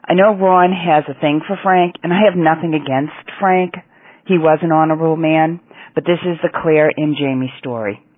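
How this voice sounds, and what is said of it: Boston New England accent. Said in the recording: “I noticed the accent pretty well... you're from New England or Boston or something”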